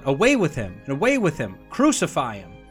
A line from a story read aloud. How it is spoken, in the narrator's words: They cried out